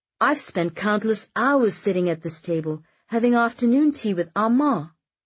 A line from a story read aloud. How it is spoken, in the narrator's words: Astrid exclaimed